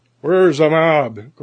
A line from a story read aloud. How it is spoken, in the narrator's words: growled the sergeant